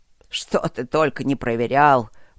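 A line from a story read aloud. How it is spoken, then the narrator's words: Old man grumbling. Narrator (Russian): пробурчал старый маг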